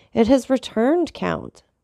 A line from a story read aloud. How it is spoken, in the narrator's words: exclaimed Morel